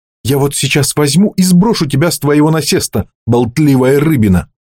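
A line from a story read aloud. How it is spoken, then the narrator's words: Exclaiming. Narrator (Russian): воскликнула она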